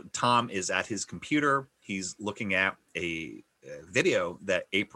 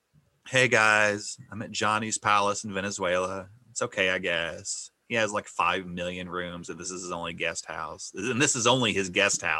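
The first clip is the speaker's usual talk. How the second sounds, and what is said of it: Deadpan flat delivery. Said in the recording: “deadpan”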